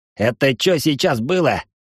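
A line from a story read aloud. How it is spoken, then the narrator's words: Growling. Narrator (Russian): прорычал Куртюн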